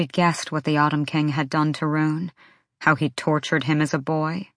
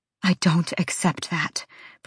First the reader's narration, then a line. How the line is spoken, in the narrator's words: Bryce breathed to Rune